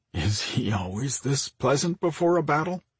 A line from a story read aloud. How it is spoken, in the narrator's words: Mike asked, with a hesitant laugh